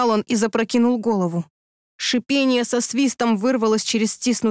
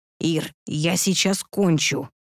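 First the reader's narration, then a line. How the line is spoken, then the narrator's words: Hissing. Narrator (Russian): прошипел он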